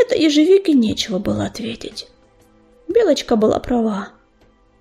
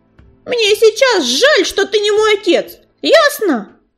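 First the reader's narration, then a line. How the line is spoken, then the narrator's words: Snapping back, matching tone. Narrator (Russian): в тон ему огрызнулась Белочка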